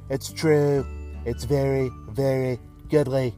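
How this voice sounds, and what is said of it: Donald Trump impression. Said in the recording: “I do a great Trump impression. ... Thanks, POTUS.”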